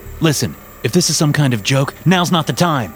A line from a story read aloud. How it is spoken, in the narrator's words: I snapped